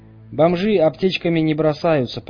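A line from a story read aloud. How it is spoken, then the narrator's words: Grumbled. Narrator (Russian): проворчал Хаус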